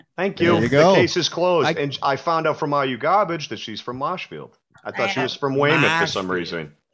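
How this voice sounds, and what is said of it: Strong Massachusetts accent. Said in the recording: “has this awful, god-awful way he speaks ... You sound the most masculine. It's the best fucking accent.”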